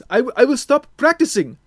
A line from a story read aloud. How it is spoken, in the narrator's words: the African boy shouted